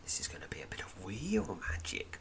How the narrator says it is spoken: whispers Zazawok

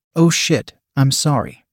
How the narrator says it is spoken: my son said

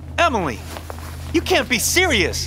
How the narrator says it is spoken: I shouted

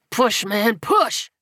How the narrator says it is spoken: He grunted to himself

